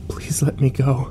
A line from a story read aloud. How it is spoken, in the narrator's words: I begged him quietly